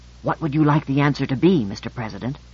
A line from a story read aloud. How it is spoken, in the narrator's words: whispered